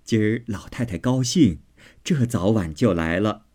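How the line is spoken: Laughing. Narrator (Chinese): 笑道

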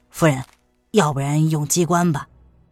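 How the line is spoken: Low voice. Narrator (Chinese): 王兆熙低声的说

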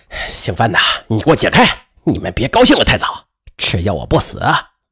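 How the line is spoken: Furious. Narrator (Chinese): 愤怒至极的说

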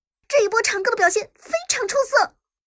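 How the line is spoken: Shocked shout. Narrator (Chinese): 芊芊震惊的喊道

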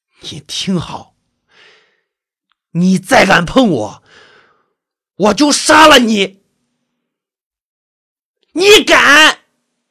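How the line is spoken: Shouting but faltering. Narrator (Chinese): 他虽然是吼着说的，但是气势上明显弱下去

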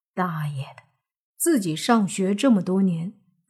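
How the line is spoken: Exclaiming with feeling. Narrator (Chinese): 莫凡感叹

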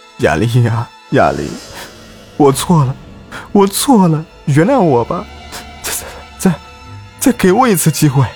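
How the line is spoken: Tearful begging. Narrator (Chinese): 郑中介还带着哭腔说道

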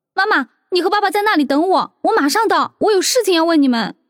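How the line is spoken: Shouting into phone. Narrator (Chinese): 他对着电话里的杨慧中叫道

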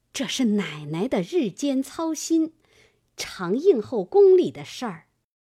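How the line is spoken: Laughing. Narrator (Chinese): 旺儿家的笑道

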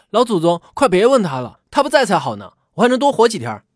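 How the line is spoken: Angry, loud. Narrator (Chinese): 宝玉…这气呀又上来了，连忙回头大声说道

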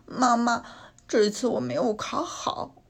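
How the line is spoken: Crying. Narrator (Chinese): 我边哭边说

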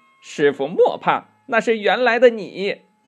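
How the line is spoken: Laughing. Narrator (Chinese): 悟空笑道

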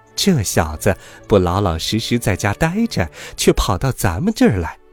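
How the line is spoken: Whispered warning. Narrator (Chinese): 第三只狐狸小声提醒道

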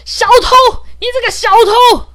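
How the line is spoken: Giant shouting. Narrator (Chinese): 巨人在喊

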